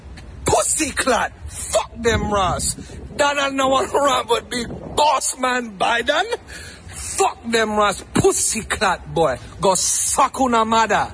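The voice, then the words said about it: Put-on Jamaican accent. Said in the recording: “he's under fire for using a Jamaican accent”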